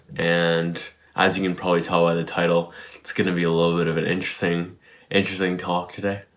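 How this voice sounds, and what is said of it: Partly lost, strained voice. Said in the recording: “My voice is a little bit lost right now because I was at Excision last night. So I was screaming basically all night and, or yelling rather.”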